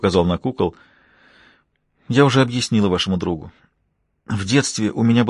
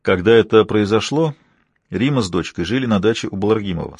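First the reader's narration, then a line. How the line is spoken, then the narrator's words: Plain. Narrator (Russian): сказал Силов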